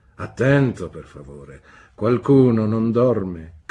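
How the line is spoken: Gentleman asking, laughing. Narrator (Italian): domandò ridendo quel signore

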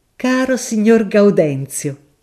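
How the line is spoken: Sudden exclamation. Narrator (Italian): esclamò all'improvviso

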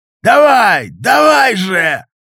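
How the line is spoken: Yelling while pushing through. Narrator (Russian): заорал Кривой, пытаясь протолкнуться

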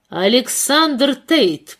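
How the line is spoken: Stern, suppressing laughter. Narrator (Russian): произнесла она строго, стараясь сдержать смех

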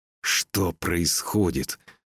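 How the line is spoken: Growl through teeth. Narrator (Russian): прорычал он сквозь зубы

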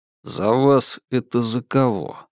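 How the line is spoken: Tired question. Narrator (Russian): устало поинтересовался Сергей

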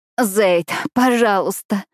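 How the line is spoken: Sobbing. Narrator (Russian): рыдаю я

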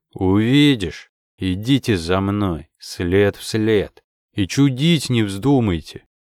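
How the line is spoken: Gloomy pronouncement. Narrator (Russian): мрачно изрек

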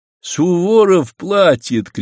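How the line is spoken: Soldier shouting. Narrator (Russian): крикнул один из солдат

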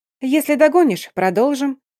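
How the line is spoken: Cheerful reply. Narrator (Russian): весело отозвалась наследница барона

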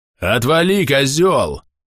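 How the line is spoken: Furious roar. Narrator (Russian): в бешенстве взревел незнакомый бродник

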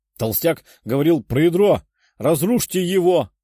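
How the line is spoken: Shouted. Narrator (Russian): выкрикнул один из лучников

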